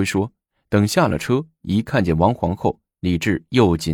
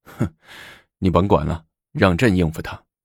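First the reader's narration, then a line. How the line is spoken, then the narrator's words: Smiling, comforting. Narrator (Chinese): 李治笑了一下，又安慰独孤及说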